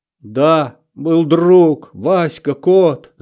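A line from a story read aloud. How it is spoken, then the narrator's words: Shouted. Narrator (Russian): закричал я в ее смеющееся лицо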